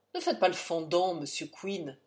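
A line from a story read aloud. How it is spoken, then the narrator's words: Morose tone. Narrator (French): dit Ulick d'un ton morose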